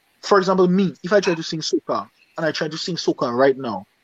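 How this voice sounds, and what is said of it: Dominican Caribbean English accent. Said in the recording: “my Dominican accent”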